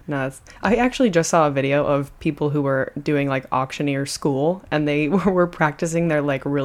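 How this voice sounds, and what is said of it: Usual voice. Nothing is said of it.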